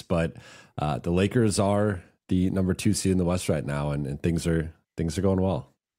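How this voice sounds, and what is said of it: Voice sounds unwell. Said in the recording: “I've certainly been better physically, as you can hear in my voice”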